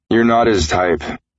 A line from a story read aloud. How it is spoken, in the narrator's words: slurred